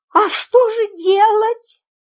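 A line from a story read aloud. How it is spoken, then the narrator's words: Trembling voice, question. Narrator (Russian): дрожащим голосом спросила мисс Фридлендер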